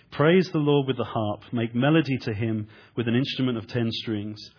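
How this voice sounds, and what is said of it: English accent. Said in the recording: “I'm going to be speaking with an English accent”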